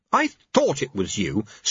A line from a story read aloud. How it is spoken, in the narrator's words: snapped Susan